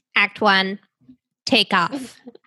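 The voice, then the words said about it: Imitates another person's voice. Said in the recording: “my little impression of Ira Glass”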